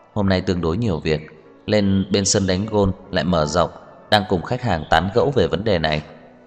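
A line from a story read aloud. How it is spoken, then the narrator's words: Gentle. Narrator (Vietnamese): Tưởng Thiên Lỗi dịu dàng nói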